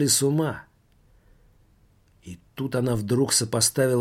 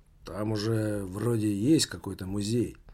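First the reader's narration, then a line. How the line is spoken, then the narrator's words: Mutter. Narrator (Russian): пробормотал Таборский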